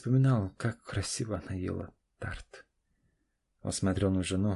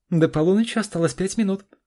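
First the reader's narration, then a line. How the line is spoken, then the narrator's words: Loud announcement. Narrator (Russian): известила Наташа громко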